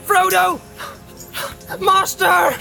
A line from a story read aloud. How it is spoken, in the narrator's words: he cried, half sobbing